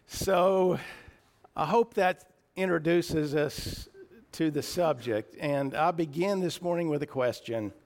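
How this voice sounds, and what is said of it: Slightly raspy, emotional voice. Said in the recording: “I've got a little raspy voice this morning, and being emotional doesn't help it.”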